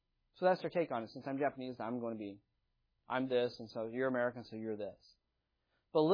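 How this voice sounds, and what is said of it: Usual voice. Nothing is said of it.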